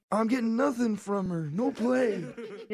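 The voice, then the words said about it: Old man character voice. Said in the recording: “You sound like a dirty old man.”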